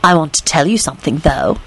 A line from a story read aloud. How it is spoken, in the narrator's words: she whispered